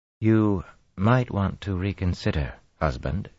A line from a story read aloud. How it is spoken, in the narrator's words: she murmured